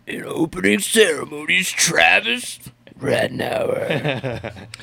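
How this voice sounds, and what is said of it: Poor God of Supercross impression. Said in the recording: “worst God of Supercross impression”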